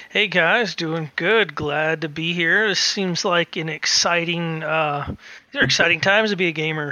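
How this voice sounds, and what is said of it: Southern American accent. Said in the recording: “accents of any person ever. ... Which is a southern accent ... a northerner that got transplanted to the south”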